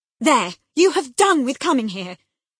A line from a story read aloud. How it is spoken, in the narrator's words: cried Catherine